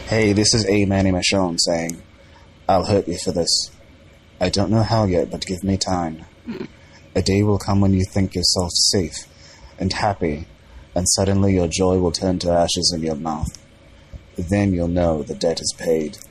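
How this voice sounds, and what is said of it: Attempted British accent. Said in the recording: “Got the little accent. ... he's trying to do that British accent”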